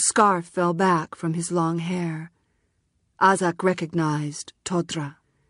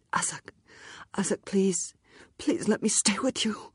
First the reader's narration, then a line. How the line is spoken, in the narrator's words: saying in a strangled voice